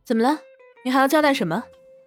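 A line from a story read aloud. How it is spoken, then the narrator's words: Sudden call. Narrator (Chinese): 王峰忽然喊住了林若曦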